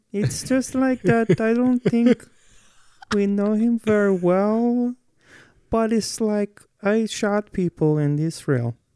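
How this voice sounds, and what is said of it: Imitates another person's voice. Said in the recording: “I was going to do an impression ... That's a really good impression.”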